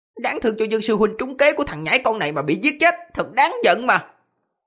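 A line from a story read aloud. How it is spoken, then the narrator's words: Hissed. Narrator (Vietnamese): Một người mở miệng rít lên, nói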